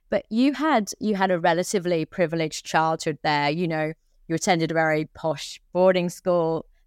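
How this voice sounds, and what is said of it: English accent. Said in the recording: “you're from England, I'm from England. We can hear it from our accents.”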